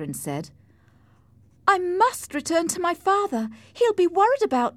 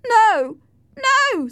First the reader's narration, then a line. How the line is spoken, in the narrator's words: screamed Linton, who was trembling